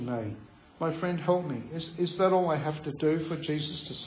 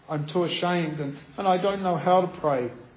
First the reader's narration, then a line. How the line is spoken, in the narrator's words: cried Chi Mei miserably, as if deliverance was suddenly out of reach again